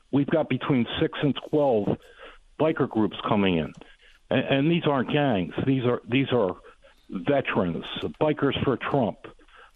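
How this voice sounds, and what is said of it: Excited, energetic voice. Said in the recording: “You can tell by my voice, I'm very excited for this.”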